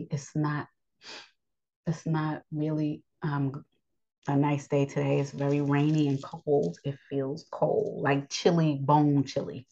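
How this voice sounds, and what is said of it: Scratchy, strained voice. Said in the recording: “my voice is limited ... today is one of those days that's kind of scratchy”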